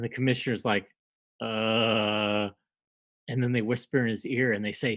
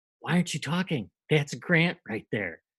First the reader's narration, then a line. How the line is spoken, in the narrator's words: The other officers, they whisper in his ear and they say